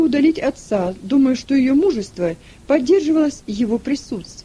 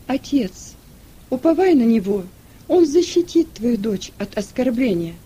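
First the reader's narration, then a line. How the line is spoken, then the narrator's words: Calm. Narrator (Russian): спокойно произнесла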